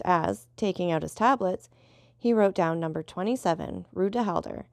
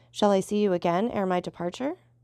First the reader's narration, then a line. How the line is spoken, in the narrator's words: asked Albert